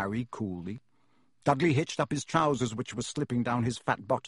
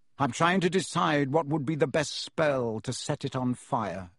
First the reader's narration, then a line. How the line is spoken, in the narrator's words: said Harry